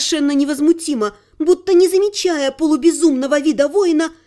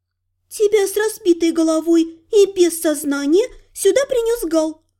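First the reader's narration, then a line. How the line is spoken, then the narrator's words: Smiling, laughing with relief. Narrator (Russian): Улыбнулась смеясь от облегчения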